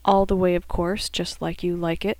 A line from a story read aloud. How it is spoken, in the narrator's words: Marie said flatly